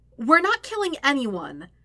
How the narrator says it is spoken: Aang says loudly

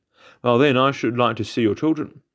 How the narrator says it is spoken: exclaiming

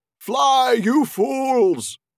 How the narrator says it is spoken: he cried

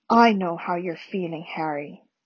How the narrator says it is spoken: said Dumbledore very quietly

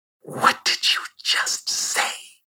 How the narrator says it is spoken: She hissed

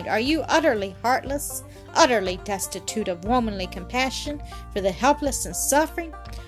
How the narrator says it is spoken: he exclaimed

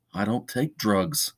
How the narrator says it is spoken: His voice was soft when he said

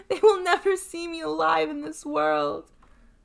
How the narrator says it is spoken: sobbed Fatima

